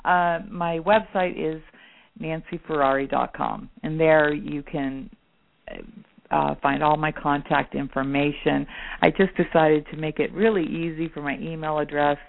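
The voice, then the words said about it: Hoarse, worn-out voice. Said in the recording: “now I'm losing my voice. I've talked so much.”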